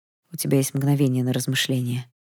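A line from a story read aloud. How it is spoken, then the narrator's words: Empty hollow voice. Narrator (Russian): все тем же пустым голосом продолжил император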